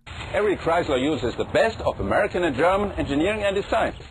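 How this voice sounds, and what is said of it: Thick German accent. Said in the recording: “Zetsche was unmistakably German, from his thick accent”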